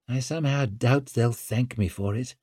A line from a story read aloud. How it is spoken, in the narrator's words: muttered Orso